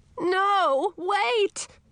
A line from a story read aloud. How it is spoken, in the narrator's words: shouted Edric